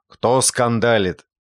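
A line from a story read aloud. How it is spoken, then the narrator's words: Angry question. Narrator (Russian): ночной сторож спросил сердито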